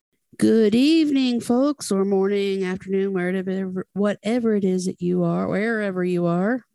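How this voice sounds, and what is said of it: Tired, mumbling speech. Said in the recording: “I'm mumbling because I'm tired.”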